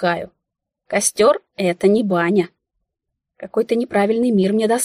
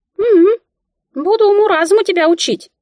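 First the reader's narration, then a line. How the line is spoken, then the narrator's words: Squeaky. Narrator (Russian): пропищала Мика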